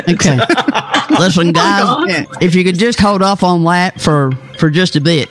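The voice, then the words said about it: Unconvincing attempt at Baltimore accent. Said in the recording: “I know this is not the Baltimore accent,”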